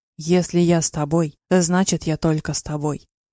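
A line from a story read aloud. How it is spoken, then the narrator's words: Calm now. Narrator (Russian): говорил уже спокойно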